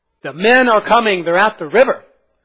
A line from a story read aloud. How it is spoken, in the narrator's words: one of them cried out